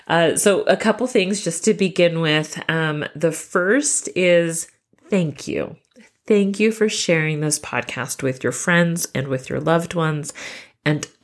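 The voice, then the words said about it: Slightly nasal, congested voice. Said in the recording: “I have just gotten over COVID ... my voice is not 3 octaves too low ... So if I do sound a little nasally, that's why, but that is a big improvement”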